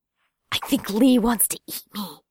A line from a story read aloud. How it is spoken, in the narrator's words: hissed